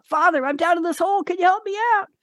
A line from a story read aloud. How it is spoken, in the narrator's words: the guy shouts up